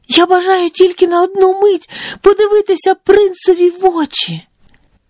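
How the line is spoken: Bold, fearless cry. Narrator (Ukrainian): прогнавши усяке зніяковіння та страх, вигукнула

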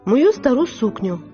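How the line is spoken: Plain. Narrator (Ukrainian): відповіла Каталіна

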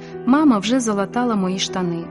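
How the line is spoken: Plain. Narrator (Ukrainian): сказав

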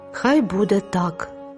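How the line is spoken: Sighing. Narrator (Ukrainian): зітхнула бідолашна Тереза

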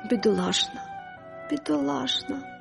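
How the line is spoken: Quiet repetition. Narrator (Ukrainian): повторювала вона тихо

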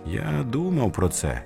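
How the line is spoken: Plain. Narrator (Ukrainian): сказав він

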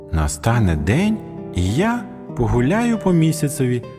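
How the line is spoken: Plain. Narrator (Ukrainian): сказав Джиммі

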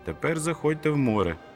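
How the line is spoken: Shout. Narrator (Ukrainian): крикнув

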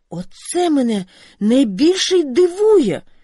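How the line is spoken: Teen exclaiming. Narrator (Ukrainian): вигукнув підліток

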